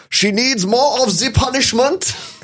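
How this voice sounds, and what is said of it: Put-on German accent. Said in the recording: “slip into English in a German accent ... German accent.”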